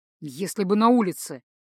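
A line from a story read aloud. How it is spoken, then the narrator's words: Almost angry reply. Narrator (Russian): почти зло ответил Тацу, вспоминая недавний разговор на эту тему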